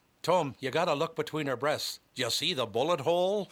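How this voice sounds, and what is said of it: Put-on Northern Irish accent. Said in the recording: “I thought your accent wasn't bad.”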